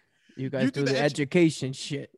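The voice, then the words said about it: Authoritative mob-style Staten Island voice. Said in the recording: “an authoritative, like mob voice ... my Staten Island impression”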